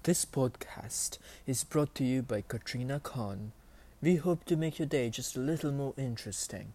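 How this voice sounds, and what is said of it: Unusual accented speech. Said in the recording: “my very weird accent”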